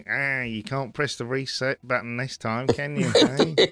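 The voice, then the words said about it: Nerdy techie character voice. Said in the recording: “more of a sort of techie, kind of nerdy.”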